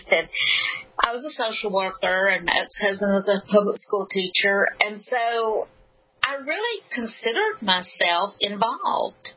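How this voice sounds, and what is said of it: Alabama Southern accent. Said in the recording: “I'm from Alabama, if you can't tell with my accent”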